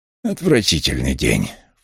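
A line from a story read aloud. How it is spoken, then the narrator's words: Snort. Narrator (Russian): фыркнул он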